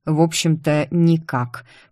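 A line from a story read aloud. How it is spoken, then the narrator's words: Through gritted teeth. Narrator (Russian): процедил Крайом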